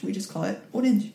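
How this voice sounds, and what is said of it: Slight put-on accent on a word. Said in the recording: “That was a little accent.”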